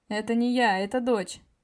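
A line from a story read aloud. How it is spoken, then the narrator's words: Laughing. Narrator (Russian): засмеялся я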